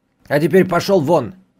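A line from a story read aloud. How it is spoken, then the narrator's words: Harsh bark. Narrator (Russian): рявкнул чиновник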